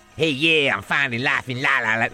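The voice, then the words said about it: Imitation with put-on American accent. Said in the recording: “that's just me doing a Gareth Bale impression if he was American”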